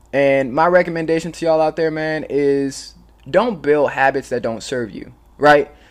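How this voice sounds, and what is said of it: Raspy voice. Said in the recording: “I was a little sick yesterday, so that's why I'm coughing and my voice is a little raspy.”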